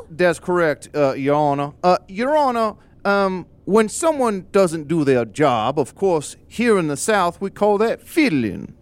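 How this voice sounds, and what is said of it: Put-on Southern accent. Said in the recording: “you have to have a southern accent”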